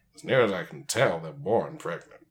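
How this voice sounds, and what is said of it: Impression of a TV character's voice. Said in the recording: “That was my Bones impression from Star Trek. ... That was not. It was the worst.”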